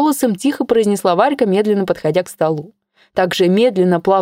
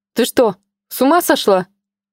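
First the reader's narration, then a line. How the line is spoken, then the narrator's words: Bewildered question. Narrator (Russian): растерянно спросила Инна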